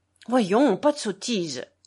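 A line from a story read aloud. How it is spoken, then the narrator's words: Stern exclamation. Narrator (French): s'exclama-t-il sévèrement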